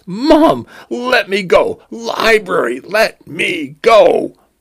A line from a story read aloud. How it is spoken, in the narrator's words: he cried